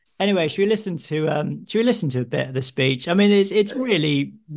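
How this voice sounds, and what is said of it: Usual voice. Nothing is said of it.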